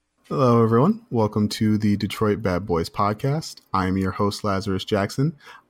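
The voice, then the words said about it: Soothing put-on public radio voice. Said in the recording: “your voice sounds so much more soothing through my MacBook ... I have my NPR voice on when I do the podcast ... Super NPR ... You don't quite get that drive time feel ... you got to put on the affect”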